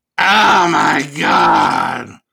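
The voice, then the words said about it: Imitates another person's voice. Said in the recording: “that impression that you just gave of her”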